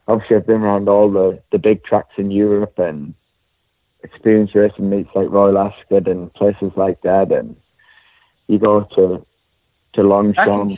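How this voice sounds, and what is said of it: Speaks with a noticeable accent. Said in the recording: “that accent of yours”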